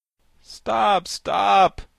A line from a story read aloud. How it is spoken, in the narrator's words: cried the pumpkin head